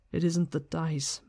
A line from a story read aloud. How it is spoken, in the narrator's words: Matt muttered